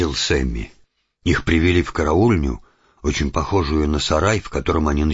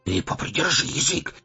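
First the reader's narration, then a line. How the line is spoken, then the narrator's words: Hissed. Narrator (Russian): зашипел на предводителя один из тюремщиков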